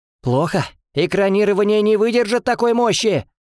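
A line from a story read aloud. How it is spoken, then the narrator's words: Strained shout. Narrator (Russian): закричал один из демонологов, с лица которого катился пот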